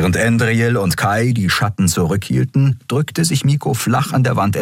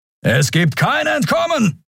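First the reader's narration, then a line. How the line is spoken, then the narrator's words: Thundering scarred man. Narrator (German): donnerte ein narbengesichtiger Mensch am anderen Ende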